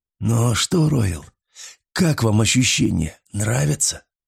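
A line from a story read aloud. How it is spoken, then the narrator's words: Exhausted hoarse rasp. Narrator (Russian): Из последних сил хрипел я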